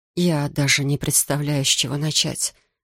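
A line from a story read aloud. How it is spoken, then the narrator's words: Muttered. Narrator (Russian): пробормотала она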